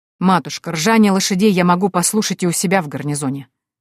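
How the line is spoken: Cold. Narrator (Russian): холодно произнес генерал

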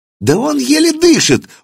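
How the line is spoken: Shrill squeal. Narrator (Russian): взвизгнул один из них

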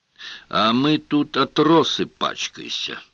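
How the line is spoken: Distant grumbling. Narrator (Russian): долетело до них ворчание

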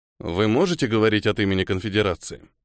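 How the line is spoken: Dry question. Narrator (Russian): Сухо поинтересовался Нера

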